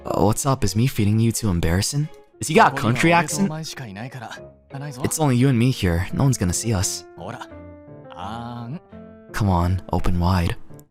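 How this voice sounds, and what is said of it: Soft ASMR-style reading voice. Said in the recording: “I'm sorry I read it like that. I don't know why I read it like that ... the ASMR brain took over me for a second when I was reading the dialogue”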